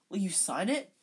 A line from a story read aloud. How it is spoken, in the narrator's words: said Colin eagerly